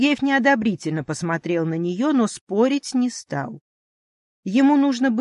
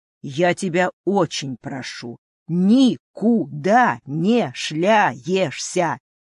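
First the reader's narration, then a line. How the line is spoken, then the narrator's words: Stern, syllable by syllable. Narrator (Russian): железным голосом повторил по слогам полковник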